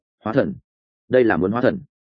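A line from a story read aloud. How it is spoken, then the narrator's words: Stunned muttering. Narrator (Vietnamese): Như rồng sững sờ, lẩm bẩm nói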